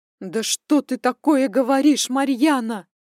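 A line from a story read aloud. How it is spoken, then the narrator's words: Deafening exclamation over phone. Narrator (Russian): Воскликнула она в трубку, чуть не оглушив меня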